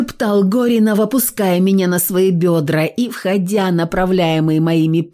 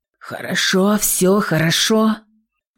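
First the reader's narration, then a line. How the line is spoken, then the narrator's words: Slow wheeze. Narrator (Russian): просипел, медля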